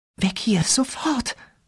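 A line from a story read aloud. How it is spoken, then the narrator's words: Whimpered. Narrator (German): wimmerte Rachel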